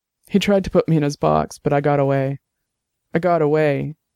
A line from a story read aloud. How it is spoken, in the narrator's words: repeated as her voice broke